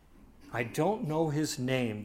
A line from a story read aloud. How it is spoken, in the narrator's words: the bishop sadly replied